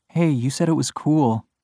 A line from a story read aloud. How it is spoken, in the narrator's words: she murmurs